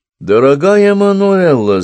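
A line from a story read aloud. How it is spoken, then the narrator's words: Ringing voice. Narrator (Russian): звенящим голосом сказал Монти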